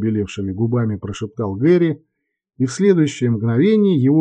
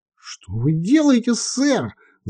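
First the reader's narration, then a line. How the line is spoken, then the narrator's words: Yelling. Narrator (Russian): завопил таксист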